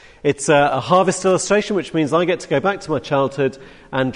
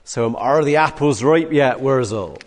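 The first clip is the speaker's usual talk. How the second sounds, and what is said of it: Put-on Somerset English accent. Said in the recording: “drag out the Somerset accent.”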